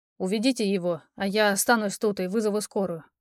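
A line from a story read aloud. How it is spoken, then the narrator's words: Muttering. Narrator (Russian): пробормотал Алекс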